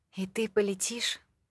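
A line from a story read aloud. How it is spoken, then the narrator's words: Crestfallen voice. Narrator (Russian): спросила я упавшим голосом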